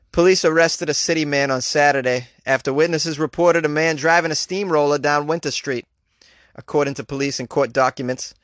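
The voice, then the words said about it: Put-on Massachusetts accent. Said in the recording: “let's do the whole article in a Massachusetts accent.”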